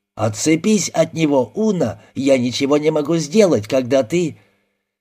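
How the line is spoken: Yelling. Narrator (Russian): Снайпер орал

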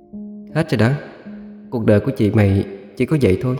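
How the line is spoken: Soft voice. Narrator (Vietnamese): Cô khẽ cất giọng

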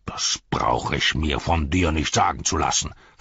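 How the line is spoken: Snarled. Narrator (German): fauchte Shagrat

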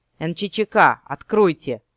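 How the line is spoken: Growling. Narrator (Russian): рыкнул Эрин

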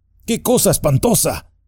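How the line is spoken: Frightened shout. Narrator (Spanish): gritó Frodo, muy asustado

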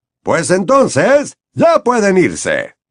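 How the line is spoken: Cheerful voice. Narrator (Spanish): les dijo Bagman con voz alegre

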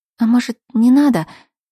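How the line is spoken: Trembling babble. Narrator (Russian): Дрожащим голосом пролепетала я

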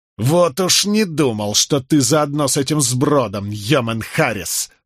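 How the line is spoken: Spiteful, through gritted teeth. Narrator (Russian): злобно процедил Вайтерингтон

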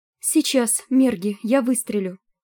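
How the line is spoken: Sobbing. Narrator (Russian): всхлипывала Амели

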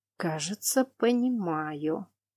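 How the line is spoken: Muttered. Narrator (Russian): пробормотал лорд Франтье

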